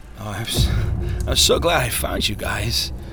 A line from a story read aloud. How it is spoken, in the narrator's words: Turnaway slurred